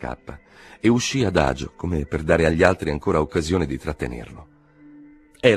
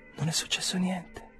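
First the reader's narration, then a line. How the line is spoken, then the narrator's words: Whispered. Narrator (Italian): sussurrò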